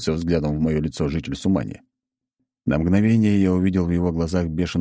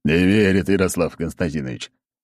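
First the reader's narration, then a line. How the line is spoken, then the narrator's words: Sudden snort. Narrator (Russian): неожиданно хмыкнул Аршавин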